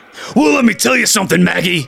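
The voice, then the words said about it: Hulk Hogan impression. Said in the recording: “your Hulk Hogan impression”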